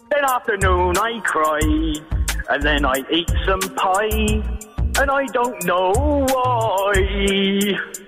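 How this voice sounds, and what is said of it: Put-on Southwest English accent. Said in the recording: “southwest accent”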